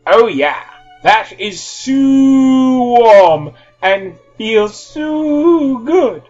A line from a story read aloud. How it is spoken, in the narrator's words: Harry shouted